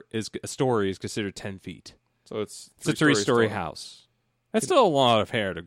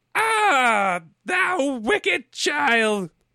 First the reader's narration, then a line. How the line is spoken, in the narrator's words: cried the enchantress